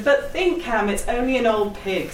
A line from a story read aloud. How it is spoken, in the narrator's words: said Mrs